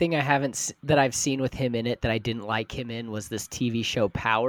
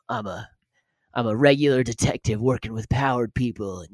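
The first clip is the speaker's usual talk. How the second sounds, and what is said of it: Unconvincing put-on American accent. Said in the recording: “He tried to do an American accent, and I didn't believe him”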